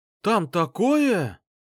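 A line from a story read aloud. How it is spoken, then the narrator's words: Exclaimed. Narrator (Russian): воскликнул он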